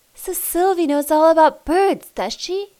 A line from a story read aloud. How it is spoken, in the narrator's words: He exclaimed